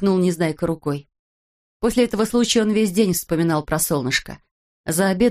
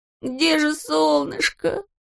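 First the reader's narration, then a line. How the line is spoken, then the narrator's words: Whimpering. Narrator (Russian): хныкал он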